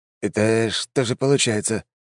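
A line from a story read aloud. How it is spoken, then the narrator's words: Confused. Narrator (Russian): растерянно проговорил аристократ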